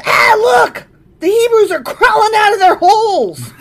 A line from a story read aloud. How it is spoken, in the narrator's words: the Philistines saw them coming, they shouted